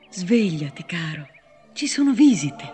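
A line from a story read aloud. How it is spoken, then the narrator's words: Gentle whisper. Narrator (Italian): dolcemente, gli sussurrava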